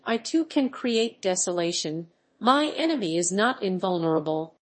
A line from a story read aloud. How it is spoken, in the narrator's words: I exclaimed